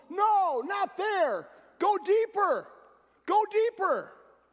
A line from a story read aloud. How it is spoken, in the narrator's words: He yelled